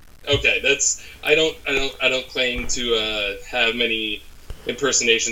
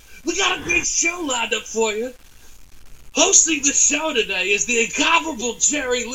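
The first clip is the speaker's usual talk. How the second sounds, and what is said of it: Imitates another person's voice. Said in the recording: “This is a great Harry Carey impression you got going. I see you've worked on it.”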